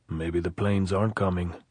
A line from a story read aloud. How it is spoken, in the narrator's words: he said